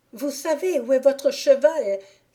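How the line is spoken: Exclaimed. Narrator (French): s'écria Lisette

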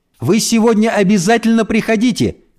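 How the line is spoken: Called after her. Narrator (Russian): крикнула Эльса ей вслед

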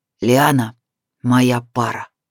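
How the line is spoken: Rough, clipped. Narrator (Russian): грубо отчеканил

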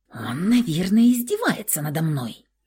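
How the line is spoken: Angry hiss. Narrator (Russian): прошипела она гневно

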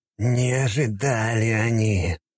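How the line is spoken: Through gritted teeth. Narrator (Russian): процедил сквозь зубы Истомин

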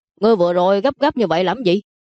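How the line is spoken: Angry. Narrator (Vietnamese): Đường Ninh tức giận nói

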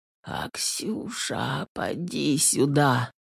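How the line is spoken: Mumbled. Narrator (Russian): пробормотала

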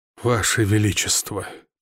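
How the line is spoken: Sighing repetition. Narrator (Russian): повторил, вздохнув

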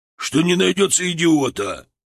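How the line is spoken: Gruff growl. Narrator (Russian): рыкнул капитан

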